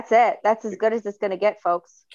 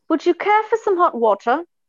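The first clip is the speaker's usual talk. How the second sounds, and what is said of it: Put-on British or Australian accent. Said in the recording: “in a better accent ... this accent must originate from UK, Australia, or New Zealand ... Not bad”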